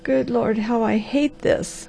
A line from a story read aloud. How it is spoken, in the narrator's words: groaned the Harvester